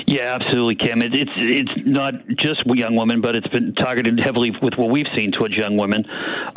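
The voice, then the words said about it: Boston accent. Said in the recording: “you're from Boston. You have that great accent. I can already hear it.”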